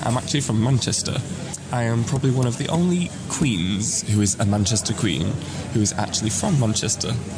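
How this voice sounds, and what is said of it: BBC-presenter-like accent, not Mancunian. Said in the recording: “I have the accent of a BBC presenter from, like, somewhere strange ... I don't have that proper, what people perceive as a Manchester accent”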